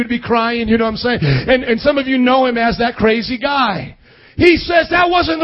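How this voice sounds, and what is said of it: Usual voice. Nothing is said of it.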